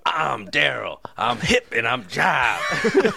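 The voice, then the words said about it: Impression of Darryl. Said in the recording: “that's a good Daryl ... Imitating people”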